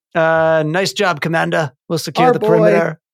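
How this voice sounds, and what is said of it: Impression of Captain Rex. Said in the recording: “my Captain Rex impersonation”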